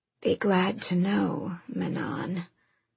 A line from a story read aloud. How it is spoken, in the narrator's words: her second rasped with a faint, cocky smile